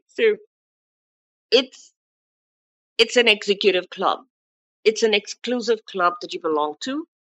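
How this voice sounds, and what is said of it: Non-native accent. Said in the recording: “my accent is different”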